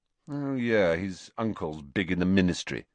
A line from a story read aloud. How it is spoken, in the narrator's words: said Malfoy